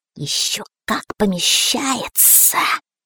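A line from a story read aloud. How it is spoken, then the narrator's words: Hissing snake. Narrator (Russian): прошипела змея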